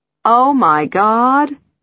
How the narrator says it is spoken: I'm laughing

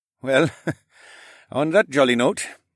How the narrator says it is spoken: Amir chuckled

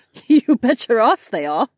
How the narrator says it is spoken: Kat chuckled

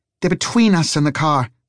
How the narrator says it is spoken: snapped Harry

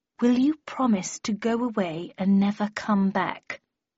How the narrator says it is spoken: asked Howson in a slow and patronizing tone

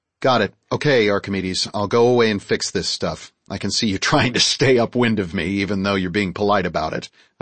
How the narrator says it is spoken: chuckled

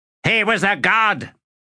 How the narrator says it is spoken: barked another soldier, baring teeth above a jet-black forked beard

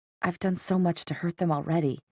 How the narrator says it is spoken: whispered

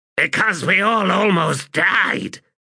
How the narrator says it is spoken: Throat Slitter snapped

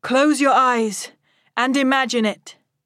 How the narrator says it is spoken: Chadan shouts

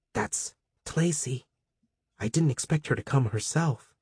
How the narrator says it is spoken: Rami whispered into Terfeed

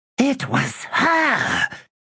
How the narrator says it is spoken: she hissed

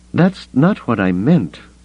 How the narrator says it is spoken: Leia said, her voice pained

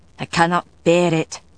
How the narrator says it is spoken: Galloglass said gruffly

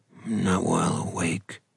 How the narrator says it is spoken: Ronan muttered

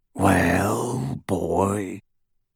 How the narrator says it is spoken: rasped the werewolf

